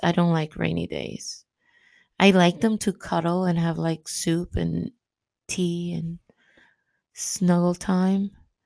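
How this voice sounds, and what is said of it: Raspy, strained voice. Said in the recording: “my voice is shot today ... I'm raspy today”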